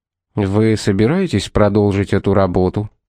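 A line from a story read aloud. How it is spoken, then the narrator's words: Plain. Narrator (Russian): спросил Томас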